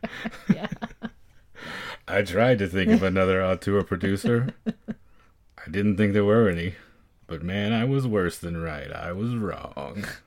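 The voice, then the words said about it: Imitates another person's voice. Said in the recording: “That's my Robert Evans impression. ... It was very good. It was very good.”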